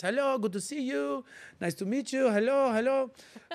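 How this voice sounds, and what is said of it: Put-on French accent. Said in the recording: “I like to do my accents from time to time ... I'm in Paris ... I'm talking like this the whole time that I'm in Paris”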